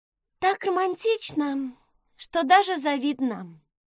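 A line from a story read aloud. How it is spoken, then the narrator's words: Sighing. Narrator (Russian): вздохнула Эмбер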